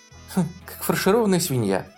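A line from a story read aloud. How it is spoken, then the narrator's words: Laughing. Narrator (Russian): рассмеялась Шерон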